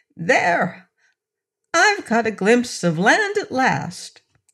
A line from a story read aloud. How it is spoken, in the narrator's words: suddenly the orc exclaimed